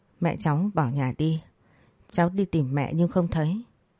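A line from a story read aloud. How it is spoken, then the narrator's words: Soft, hesitant speech. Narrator (Vietnamese): Suy nghĩ một lát tôi khẽ nói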